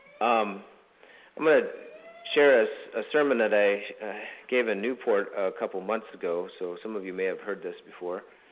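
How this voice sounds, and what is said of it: Crackly, scratchy voice. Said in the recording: “My voice is a little bit, maybe with some of you, just a little bit crackly and scratchy this morning”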